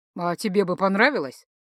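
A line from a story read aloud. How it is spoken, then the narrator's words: Smirking snort, sorcerer. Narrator (Russian): хмыкнул чародей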